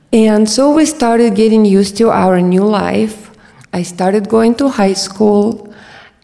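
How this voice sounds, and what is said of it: Eastern European accent. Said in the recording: “my Eastern European accent”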